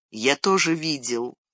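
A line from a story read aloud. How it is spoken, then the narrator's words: Quiet, dreamlike. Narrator (Russian): тихо, словно во сне, произнес Фродо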